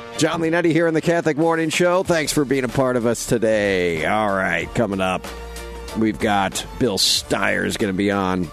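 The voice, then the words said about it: Deep announcer-style radio voice. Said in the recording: “You got the you got your radio voice on this morning.”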